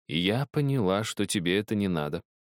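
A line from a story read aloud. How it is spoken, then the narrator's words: Calm reply. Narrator (Russian): спокойно ответила бабушка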